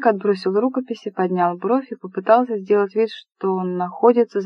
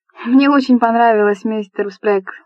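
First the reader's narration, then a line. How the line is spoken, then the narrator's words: Exclamation. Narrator (Russian): воскликнула Дженни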